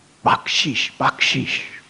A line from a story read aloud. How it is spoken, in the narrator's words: with desperate eyes, they were screaming